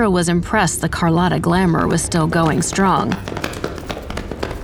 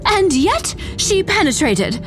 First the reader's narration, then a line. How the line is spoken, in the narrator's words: JJ cried